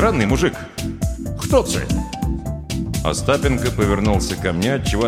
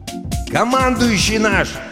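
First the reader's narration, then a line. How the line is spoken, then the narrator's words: Shouting over engine noise. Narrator (Russian): прокричал я сквозь кузовные скрипы и рев мотора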